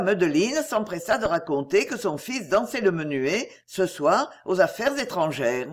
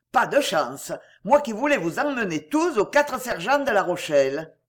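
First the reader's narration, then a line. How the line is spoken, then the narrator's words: Gruff. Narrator (French): il jeta à sa fille d'un ton bourru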